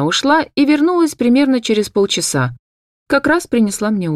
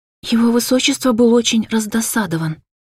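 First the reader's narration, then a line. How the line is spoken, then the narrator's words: Conspiratorial tone. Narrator (Russian): сообщила она мне заговорщицким тоном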